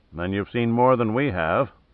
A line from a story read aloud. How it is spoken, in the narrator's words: muttered Stewart